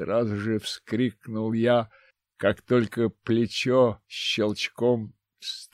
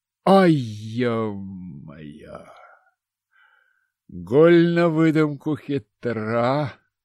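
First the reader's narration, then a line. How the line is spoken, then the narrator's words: Proud groan. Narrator (Russian): простонал я, гордясь своей смекалкой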